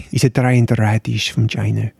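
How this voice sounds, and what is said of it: Poor put-on Dutch accent. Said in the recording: “I don't know why that's in a Dutch accent. ... even though it was rubbish”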